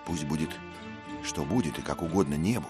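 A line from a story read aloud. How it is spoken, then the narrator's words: Plain. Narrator (Russian): сказал Дик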